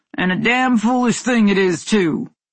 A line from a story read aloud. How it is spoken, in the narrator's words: Lynn's husband grunted